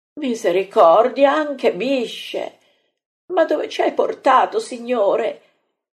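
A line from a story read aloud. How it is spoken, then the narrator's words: Moaning, frightened. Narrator (Italian): geme Marta, così spaurita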